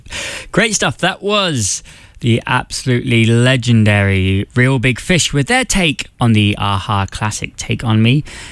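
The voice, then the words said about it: English accent. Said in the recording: “you might recognise by my accent that I'm not originally from around here. I do indeed have that English accent”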